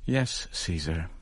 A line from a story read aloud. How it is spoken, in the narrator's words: I heard her answer softly